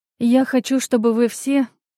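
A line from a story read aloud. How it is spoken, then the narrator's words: Sighing. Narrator (Russian): вздохнув, продолжила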